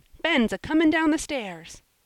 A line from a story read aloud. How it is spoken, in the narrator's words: screamed Joel, at that moment running in